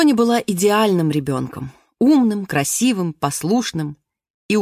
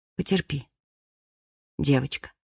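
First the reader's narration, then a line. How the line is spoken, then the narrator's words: Mother speaking tenderly. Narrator (Russian): мама скажет ей ласково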